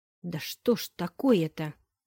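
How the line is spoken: Hissing. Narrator (Russian): С шипением

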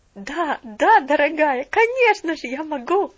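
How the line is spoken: Laughing. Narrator (Russian): засмеялась миссис Чилтон

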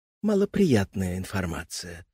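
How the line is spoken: Sighing. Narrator (Russian): вздохнула Матрёна

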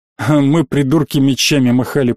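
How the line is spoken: Muttering under breath. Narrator (Russian): пробурчал Даркин под нос

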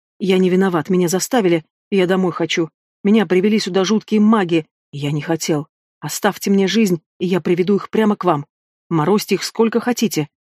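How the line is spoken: Hoarse numb whisper. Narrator (Russian): хрипло шептал немеющими губами

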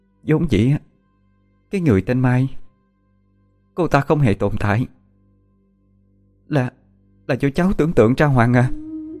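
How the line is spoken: Choked with emotion. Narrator (Vietnamese): dì Dương nghẹn ngào

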